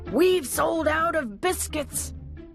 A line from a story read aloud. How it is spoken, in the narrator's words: they shouted